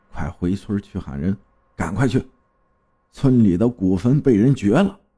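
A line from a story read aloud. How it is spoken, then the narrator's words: Low, alarmed. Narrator (Chinese): 大发脸色都变了，低声对我说道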